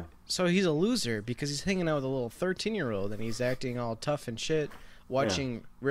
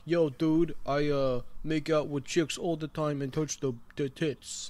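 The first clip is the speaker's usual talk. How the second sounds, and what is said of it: Imitates a character's put-on tough-guy accent. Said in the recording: “I don't know what accent he's going for ... maybe a Beastie Boy or something”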